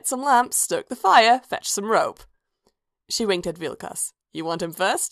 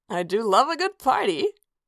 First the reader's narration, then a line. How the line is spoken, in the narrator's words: Aiella laughed